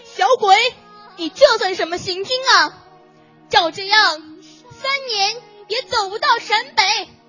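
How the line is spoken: Loud scolding shout. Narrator (Chinese): 一位同志 冲着小红军大声嚷

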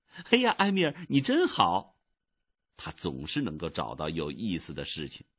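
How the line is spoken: Laughing. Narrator (Chinese): 小伊达笑了

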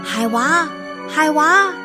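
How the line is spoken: Calling from afar. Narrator (Chinese): 他老远就叫

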